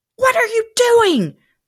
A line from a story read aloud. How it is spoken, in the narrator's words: Beth exclaimed